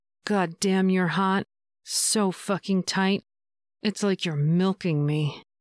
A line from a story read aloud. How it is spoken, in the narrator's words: groaned